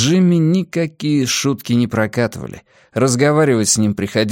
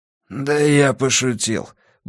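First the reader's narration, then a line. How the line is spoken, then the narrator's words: Grumbled mutter. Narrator (Russian): буркнул Уилл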